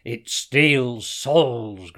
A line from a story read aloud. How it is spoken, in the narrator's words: growled Hassan